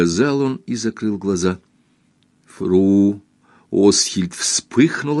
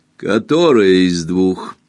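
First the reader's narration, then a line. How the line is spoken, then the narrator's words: Rude, contemptuous question. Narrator (Russian): Грубо и презрительно спросила она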